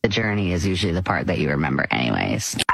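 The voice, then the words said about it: Creaky vocal fry voice. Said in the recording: “Miley Cyrus and her vocal fry”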